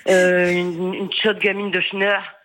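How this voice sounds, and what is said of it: Northern French accent. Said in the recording (French): “Je le fais avec l'accent, parce que moi aussi, je suis du Nord.”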